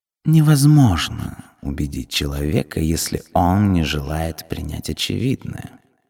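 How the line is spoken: Calm purr. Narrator (Russian): невозмутимо промурлыкала Сармис

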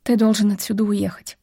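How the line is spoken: Plain. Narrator (Russian): сказала Вив

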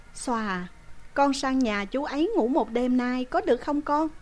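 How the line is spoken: Sighing. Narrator (Vietnamese): Chị lại thở dài nói

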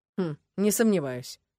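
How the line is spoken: Skeptical hmph. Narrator (Russian): хмыкнул Ленард

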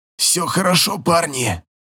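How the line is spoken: Hoarse voice. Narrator (Russian): Хрипит Романа

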